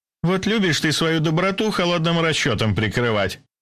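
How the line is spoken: Giggling young woman. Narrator (Russian): хихикнула девушка

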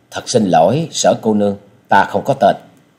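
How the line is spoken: Suddenly cold. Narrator (Vietnamese): Trần Lâm mặt bỗng trở nên lạnh lùng nói

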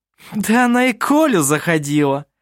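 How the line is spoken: Contemptuous laugh. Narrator (Russian): презрительно рассмеялась Керстен

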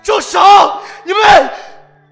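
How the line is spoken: Involuntary roar. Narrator (Chinese): 石庭云失声吼道

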